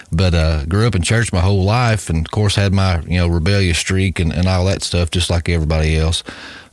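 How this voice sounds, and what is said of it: Southern East Tennessee accent. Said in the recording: “I'm from the Bible Belt, if you can't tell by my dialect here. ... I'm from East Tennessee”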